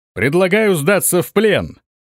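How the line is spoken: Loud shout. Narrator (Russian): громко прокричал он

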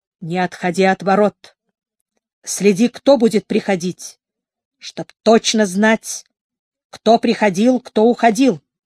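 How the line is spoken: Stern, quiet. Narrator (Russian): эмир сказал строго, но тихо

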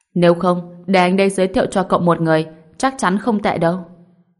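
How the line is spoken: Smug laughing voice. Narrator (Vietnamese): Diệp Phàm lại cười lớn, đắc ý nói

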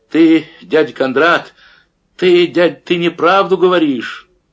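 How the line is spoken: Shouting, breaking small voice. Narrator (Russian): крикнула срывающимся голоском

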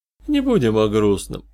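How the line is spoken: Snort. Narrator (Russian): хмыкнул Тимс

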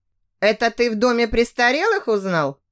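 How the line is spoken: Snorting. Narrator (Russian): хмыкнул Карлос

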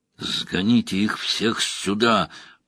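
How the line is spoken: Growled. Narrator (Russian): прорычал Фейн

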